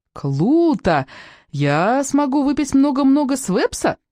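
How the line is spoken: Squeaky voice. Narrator (Russian): пропищал Жанде

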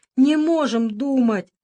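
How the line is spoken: Whining group. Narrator (Russian): захныкали пираты

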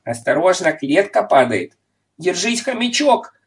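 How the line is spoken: Shouted. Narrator (Russian): крикнул Понеделкус

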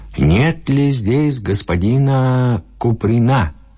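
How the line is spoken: Loud shout. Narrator (Russian): крикнул громко

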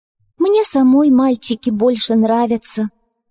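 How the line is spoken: Calm reply. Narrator (Russian): спокойно ответила Ляля

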